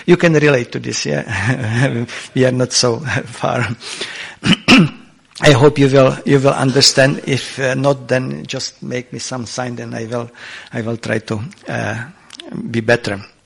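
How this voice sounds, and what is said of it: Czech-accented English. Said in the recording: “my Czech accent, Czech English accent”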